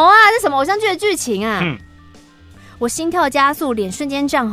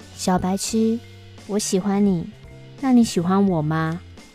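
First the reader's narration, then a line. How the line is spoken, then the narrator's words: Soft whisper. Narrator (Chinese): 在我的耳边轻声的说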